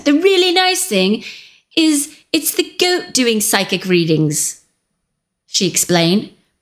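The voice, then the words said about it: Put-on accent. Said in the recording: “I'm going to do that accent.”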